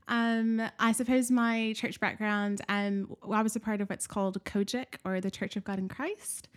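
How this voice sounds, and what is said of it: American accent. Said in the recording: “you have a slightly different accent to mine ... My accent is not English or British, but I'm from the United States. I was born and raised in Nashville, Tennessee.”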